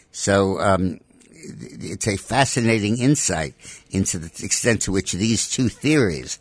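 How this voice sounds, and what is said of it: Usual voice. Nothing is said of it.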